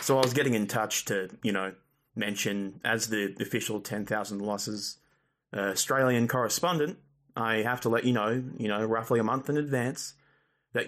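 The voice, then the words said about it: Australian accent. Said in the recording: “the Australian accent, but go fuck yourself. This is just how I sound.”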